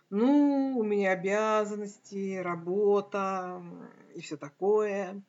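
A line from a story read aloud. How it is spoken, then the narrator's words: Glum objection. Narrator (Russian): уныло возразила я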